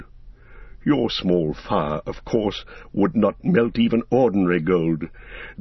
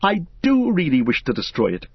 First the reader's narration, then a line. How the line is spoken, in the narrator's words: cried Frodo